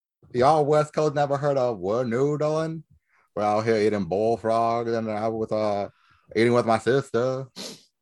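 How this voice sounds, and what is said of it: Put-on Southern US accent. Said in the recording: “imitates the accent ... some of those southern states”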